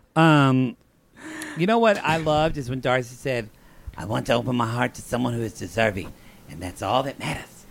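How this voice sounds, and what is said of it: Hoarse, losing voice. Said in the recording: “my voice is gone.”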